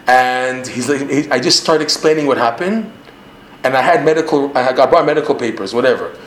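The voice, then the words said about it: Canadian North American accent. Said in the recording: “I'm speaking with my Canadian accent ... You can hear in my accent that I have a North American accent.”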